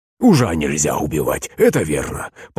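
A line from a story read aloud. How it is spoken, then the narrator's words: Submissive mumbling. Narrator (Russian): покорно забормотал Пантелей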